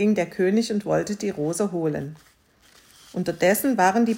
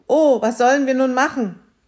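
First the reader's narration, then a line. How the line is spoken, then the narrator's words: Daughter calling out. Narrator (German): Die Tochter rief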